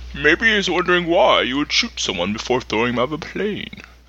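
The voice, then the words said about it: Poor Bane villain voice impression. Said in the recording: “That was terrible. Terrible. ... Never trust a shitty Bane accent. Shitty Bane impression.”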